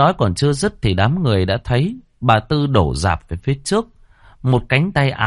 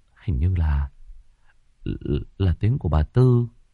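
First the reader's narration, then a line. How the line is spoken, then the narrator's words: Muttered. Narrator (Vietnamese): Cậu Đức lẩm bẩm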